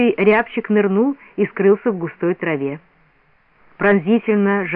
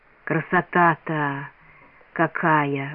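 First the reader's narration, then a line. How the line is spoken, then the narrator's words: Admiring whisper. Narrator (Russian): восхищенно прошептал Бориска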